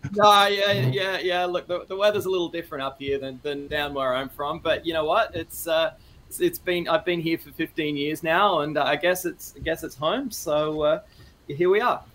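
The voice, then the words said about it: Australian accent. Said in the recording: “I just assumed you would have a Canadian accent. Are you Australian? ... I am Australian.”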